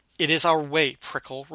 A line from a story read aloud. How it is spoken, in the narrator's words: Rhubarb spat